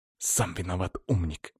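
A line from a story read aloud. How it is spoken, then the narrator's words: Quiet scoff. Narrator (Russian): хмыкнул но сделал это тихо, чтобы не попасть под раздачу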